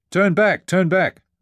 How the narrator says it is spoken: hollered Dana

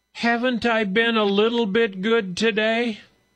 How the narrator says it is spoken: burst into more tears, and then shouted at her mother

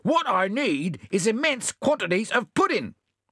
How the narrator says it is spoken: the possum said angrily

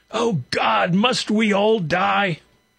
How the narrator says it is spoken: Sobbing ... he shouted

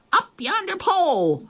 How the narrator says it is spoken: the others shouted

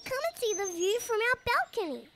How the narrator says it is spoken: Little Kip cheered up immediately, he squeaked with enthusiasm

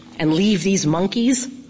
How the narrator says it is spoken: Lawn Boy said

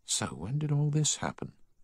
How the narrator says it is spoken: he whispered

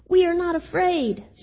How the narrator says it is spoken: screamed Frog and Toad at the same time

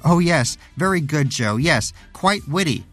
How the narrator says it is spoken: shouted Danish

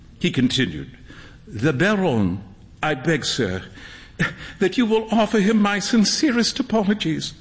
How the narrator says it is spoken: stammered Huey

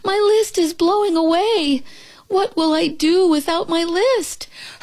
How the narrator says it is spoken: cried Toad

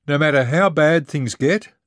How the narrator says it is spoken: I shouted to Dana

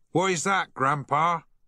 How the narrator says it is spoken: shouted Harry

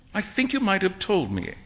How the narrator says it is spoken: Alan said, sulkily

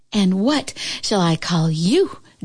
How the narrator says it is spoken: Juliet panted

